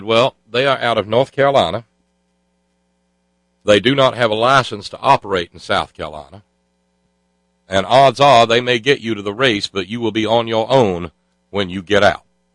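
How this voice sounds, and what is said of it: Thick imitated Southern drawl. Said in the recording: “I'm only approximating the accent ... you could pour that accent on pancakes. It was so thick and gooey.”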